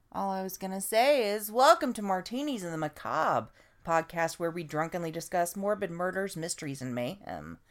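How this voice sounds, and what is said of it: Hoarse, raspy laryngitis voice. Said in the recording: “my voice sounds evil. I've got a little bit of laryngitis”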